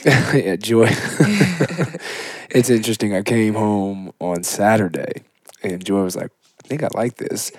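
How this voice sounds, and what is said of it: Slightly raspy, hoarse voice. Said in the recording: “my voice, just a little bit raspy ... lose my voice ... a little bit of rasp”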